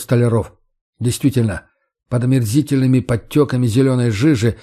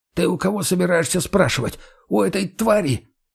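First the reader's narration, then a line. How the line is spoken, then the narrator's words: Hissing whisper. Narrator (Russian): шепотом зашипел Иван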